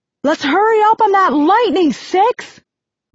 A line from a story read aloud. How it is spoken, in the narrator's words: yells Nine